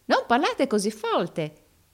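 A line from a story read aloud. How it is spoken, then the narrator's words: Rehearsed exclamation. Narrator (Italian): esclamò l'altro recitando la lezione a perfezione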